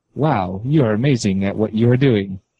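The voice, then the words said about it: Sarcastic robotic voice. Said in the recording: “sarcastically ... you immediately sounded like more of a robot when you did that accent”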